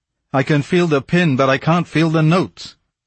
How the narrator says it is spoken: Moncharmin, whose hands were still fumbling, bellowed

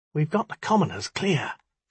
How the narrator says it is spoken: she whispered

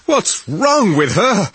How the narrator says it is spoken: he gasped

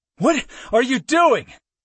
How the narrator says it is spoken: I roared through labored pants

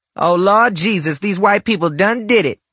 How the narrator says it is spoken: Rhonda screamed

